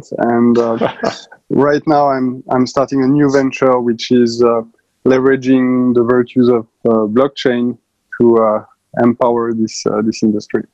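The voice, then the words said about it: Foreign accent, likely French. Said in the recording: “in Paris, obviously, with my accent.”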